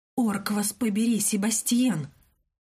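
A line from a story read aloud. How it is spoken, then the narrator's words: Between hiss and rasp. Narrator (Russian): наружу вырвалось лишь нечто среднее между шипением и хрипом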